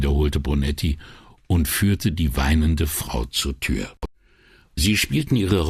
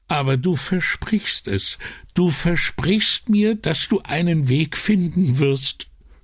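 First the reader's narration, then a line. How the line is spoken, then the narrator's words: Sobbing. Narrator (German): schluchzte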